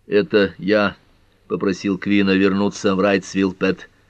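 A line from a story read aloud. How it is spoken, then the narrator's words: Hoarse. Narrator (Russian): хрипло произнес Карт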